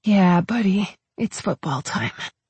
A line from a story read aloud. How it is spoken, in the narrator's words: I said quietly